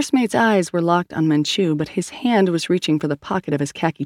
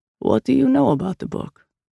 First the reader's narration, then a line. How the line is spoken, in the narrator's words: Manchu asked very calmly